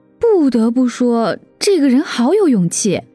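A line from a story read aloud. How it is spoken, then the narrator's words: Amazed. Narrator (Chinese): 林阳一脸惊叹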